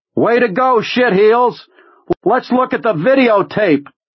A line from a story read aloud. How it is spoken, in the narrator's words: cupped them around his mouth and yelled